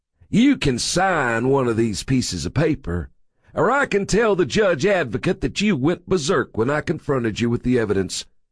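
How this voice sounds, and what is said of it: Self-satisfied Texas drawl. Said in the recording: “His Texas accent slid into a self-satisfied drawl.”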